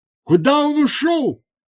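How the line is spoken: Shouted. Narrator (Russian): закричала Азара

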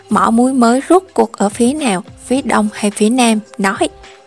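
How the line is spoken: Cruel, cold question. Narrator (Vietnamese): hung ác lạnh lùng hỏi

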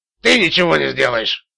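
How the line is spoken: Gruff grumble. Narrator (Russian): буркнул Магуайр

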